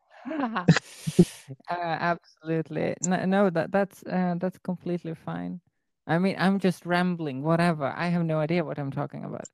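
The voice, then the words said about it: Distinctive foreign English accent. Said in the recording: “I'm still mesmerized by your accent ... Is it Swedish? Is it British?”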